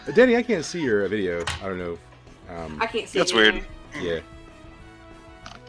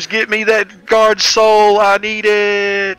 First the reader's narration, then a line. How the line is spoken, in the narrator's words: Gray screams